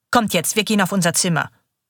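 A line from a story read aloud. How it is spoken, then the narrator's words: Hard, stern voice. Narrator (German): sagt sie mit ihrer harten Stimme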